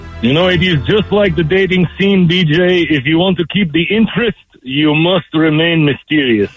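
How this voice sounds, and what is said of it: Russian accent. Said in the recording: “We don't know if this is a fake or real accent.”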